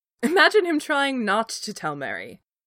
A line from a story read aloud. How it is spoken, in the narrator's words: Legolas countered, finally giving in to laughter himself